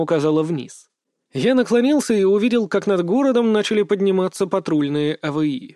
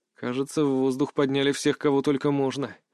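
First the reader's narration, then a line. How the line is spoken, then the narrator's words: Muttered. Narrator (Russian): пробормотал я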